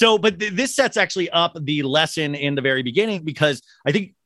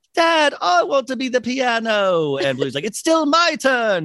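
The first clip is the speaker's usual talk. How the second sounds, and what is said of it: Cartoon character voices with accents. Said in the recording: “your accents are on point.”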